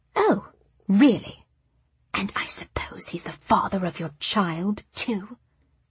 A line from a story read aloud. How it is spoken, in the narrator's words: whispered, her eyes glinting the way they do when she gets hold of a secret at last